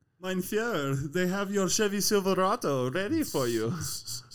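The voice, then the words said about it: Put-on Southern German accent. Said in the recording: “the hardest accent I've ever fucking tried to do is Southern German”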